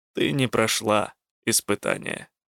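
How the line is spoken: Calm reply. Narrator (Russian): спокойно ответил Косул

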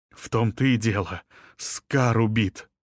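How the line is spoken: Nervous exhale. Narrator (Russian): нервно выдохнул Том

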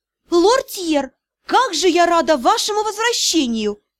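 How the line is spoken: Exclamation. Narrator (Russian): воскликнула она

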